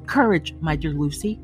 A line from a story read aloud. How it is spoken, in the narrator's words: said Mr